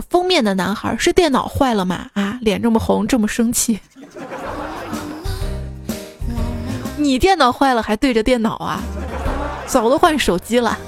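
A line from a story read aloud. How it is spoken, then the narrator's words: Laughing, teasing. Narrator (Chinese): 清香笑语说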